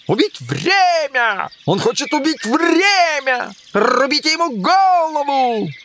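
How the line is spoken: Queen's sudden shout. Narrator (Russian): Королева как закричит

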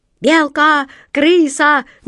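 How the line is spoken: Ragged pirate shouting. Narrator (Russian): нестройно закричали пираты

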